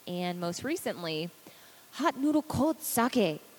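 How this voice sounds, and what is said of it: Exaggerated put-on ethnic accent. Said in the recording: “my incredibly racist accent”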